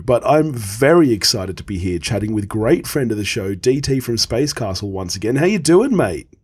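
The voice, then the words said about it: Crackly voice from a cold. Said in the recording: “if my voice is a little bit crackly. The man flu got hold of me”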